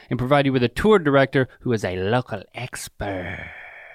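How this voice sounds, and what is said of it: Random put-on accent. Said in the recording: “I have to say local expert in some sort of random accent.”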